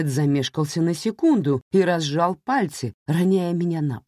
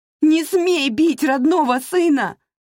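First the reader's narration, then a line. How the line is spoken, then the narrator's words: Mother shouting. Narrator (Russian): закричала мать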